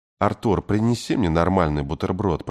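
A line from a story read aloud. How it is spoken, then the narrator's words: Whisper. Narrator (Russian): прошептал за ее спиной Кей Овальд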